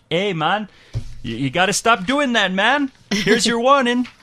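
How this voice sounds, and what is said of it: Poor put-on Canadian accent. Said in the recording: “Horrible Canadian accent”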